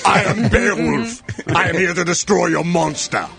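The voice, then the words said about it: Imitates a heroic character's voice. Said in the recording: “My Beowulf impression.”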